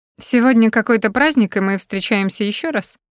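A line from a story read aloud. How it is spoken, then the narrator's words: Mocking over speakerphone. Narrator (Russian): Включив громкую связь, насмешливо спрашиваю я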